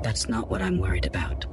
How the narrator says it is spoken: she whispered

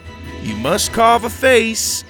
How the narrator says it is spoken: Farmer Dan shouted over the tables

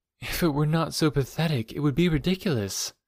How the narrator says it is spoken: said the girl sadly

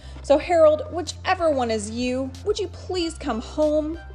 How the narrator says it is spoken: He pleaded

